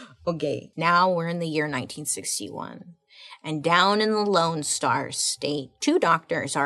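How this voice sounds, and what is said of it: Usual voice. Nothing is said of it.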